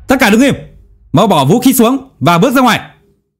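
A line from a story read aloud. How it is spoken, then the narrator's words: Loud commanding shout. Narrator (Vietnamese): anh liền rút súng ra hét lớn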